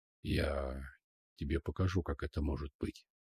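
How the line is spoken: Hoarse voice. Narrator (Russian): хрипло произнес Амир

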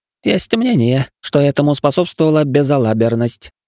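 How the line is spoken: Skeptical hmph. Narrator (Russian): хмыкнул толстячок

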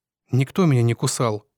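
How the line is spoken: Grumbled. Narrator (Russian): буркнул я

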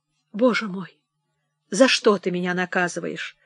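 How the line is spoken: Moaning. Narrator (Russian): стонал Стабровский

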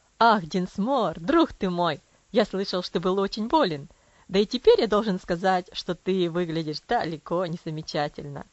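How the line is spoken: Cheerful hearty exclamation. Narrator (Russian): Воскликнул Травилла веселым сердечным тоном

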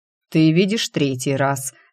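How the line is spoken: Calm, insolent. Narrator (Russian): спокойно отозвался этот наглец

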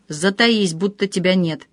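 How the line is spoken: Hissed whisper. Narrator (Russian): Егор прошипел на ухо

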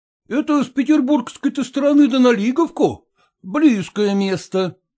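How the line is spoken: Exclaiming. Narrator (Russian): воскликнул Зваров

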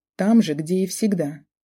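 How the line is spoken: Irritated, curt. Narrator (Russian): раздраженно отрезала

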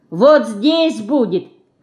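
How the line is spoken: Shouting again. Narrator (Russian): крикнула еще раз

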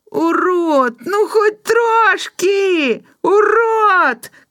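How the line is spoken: Shouting. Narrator (Belarusian): крычаў Жора

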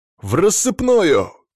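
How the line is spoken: Shout. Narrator (Russian): крикнул я

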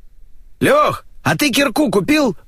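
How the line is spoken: Shouting. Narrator (Russian): крикнул Олег

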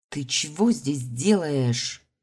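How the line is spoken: Hissed. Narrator (Russian): зашипела я

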